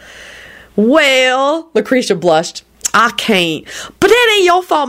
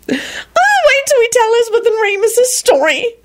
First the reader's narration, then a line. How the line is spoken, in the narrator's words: she screeched